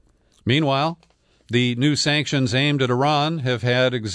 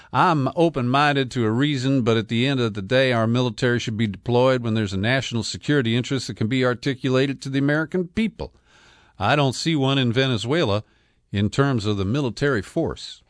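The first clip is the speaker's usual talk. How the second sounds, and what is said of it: Mock Southern accent, Lindsey Graham. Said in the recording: “Can I use a mock Southern accent without offending my Southern listeners?”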